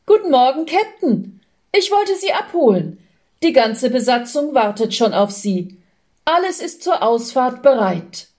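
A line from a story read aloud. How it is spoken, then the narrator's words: Cheerful boy calling. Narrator (German): eine fröhliche Jungenstimme rief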